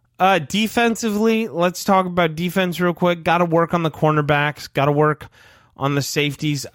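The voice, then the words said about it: Strained, failing voice. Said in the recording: “I am actually going to lose my voice. This is very difficult without a break.”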